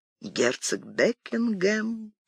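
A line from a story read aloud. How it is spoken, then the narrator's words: Whisper. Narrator (Russian): прошептала она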